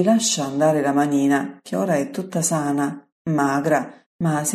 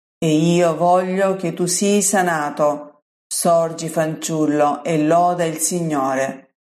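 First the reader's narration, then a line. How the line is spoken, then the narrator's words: Solemn, powerful voice. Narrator (Italian): solenne, con voce potente, dice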